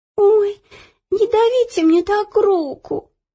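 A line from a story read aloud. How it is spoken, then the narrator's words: Whimpering. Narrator (Russian): захныкала Ело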